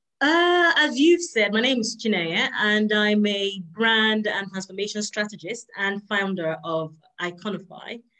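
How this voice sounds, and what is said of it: Non-American accent, London-based speaker. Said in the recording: “I heard the accent. I couldn't place it, but I'm like, she's not in America.”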